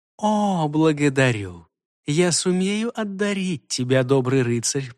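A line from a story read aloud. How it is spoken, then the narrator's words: Purring. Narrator (Russian): промурлыкала она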